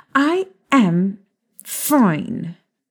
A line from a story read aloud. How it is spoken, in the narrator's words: Molly said through clenched teeth